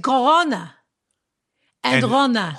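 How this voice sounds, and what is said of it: Put-on Israeli Hebrew accent. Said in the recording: “if you read that with a Hebrew accent, with an Israeli accent,”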